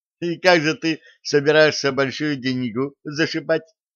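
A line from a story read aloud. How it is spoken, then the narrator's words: Question after laughing. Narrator (Russian): отсмеявшись, спросила Аделина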